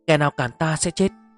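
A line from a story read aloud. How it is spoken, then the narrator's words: Loud shout. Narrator (Vietnamese): hét lớn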